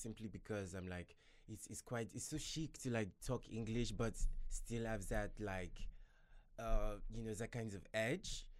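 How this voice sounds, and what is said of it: Put-on French accent. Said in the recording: “French ... the French accent ... So that was French.”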